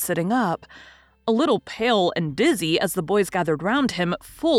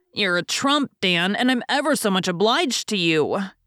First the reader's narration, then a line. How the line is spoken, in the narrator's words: cried Jack gratefully